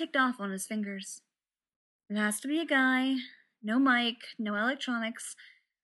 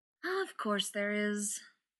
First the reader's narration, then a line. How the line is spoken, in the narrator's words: Elizabeth said, sighing